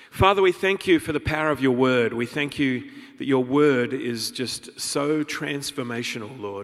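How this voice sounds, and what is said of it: Australian accent. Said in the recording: “you get to listen to an Aussie accent for the next 40 minutes or so”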